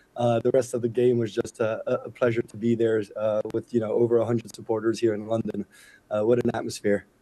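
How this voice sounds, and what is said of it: Hoarse voice, strained from shouting. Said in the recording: “chanting, screaming, as you can hear by my voice. I gave it all yesterday.”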